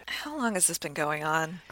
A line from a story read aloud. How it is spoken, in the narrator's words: I sighed